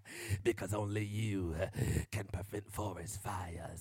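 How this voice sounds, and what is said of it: Batman-style character voice. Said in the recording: “I sound like Batman in the spirit ... preaching in my Batman voice”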